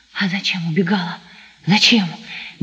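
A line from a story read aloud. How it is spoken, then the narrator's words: Hot incoherent whisper. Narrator (Russian): горячим обжигающим шепотом бессвязно твердил Сашка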